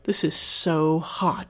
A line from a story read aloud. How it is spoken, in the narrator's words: groaned in his ear